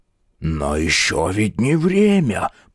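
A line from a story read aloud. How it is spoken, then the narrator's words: Whispered. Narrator (Russian): прошептал Птоклюсп 2Б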